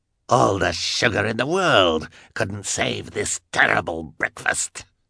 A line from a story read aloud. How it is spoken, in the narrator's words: he roared